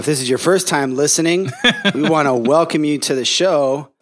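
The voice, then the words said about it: Announcer-style radio voice. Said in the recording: “You're doing the legit radio intro ... I'm feeling a little radio voice”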